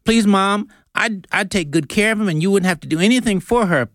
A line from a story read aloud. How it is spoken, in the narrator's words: pleaded Lizzie